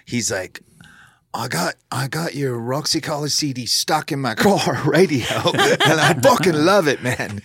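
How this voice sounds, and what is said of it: Put-on English accent. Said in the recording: “He doesn't talk with an English accent. I don't know why I just gave one.”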